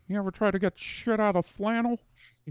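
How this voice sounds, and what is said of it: Imitates another person's voice. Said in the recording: “I don't do a good Uncle George. Not at all. ... Sounds like the sheriff. ... bad George Lucas impression.”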